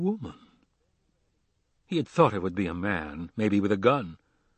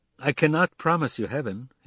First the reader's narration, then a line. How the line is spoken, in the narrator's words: he said